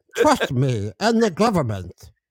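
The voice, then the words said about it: Imitates a film priest's voice. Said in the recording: “maybe I'll just pretend, you know, like the priest from Princess Bride”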